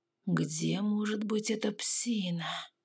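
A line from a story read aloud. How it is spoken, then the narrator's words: Quiet muffled whisper. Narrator (Russian): тихом шепоте парня ... все слова разобрать было невозможно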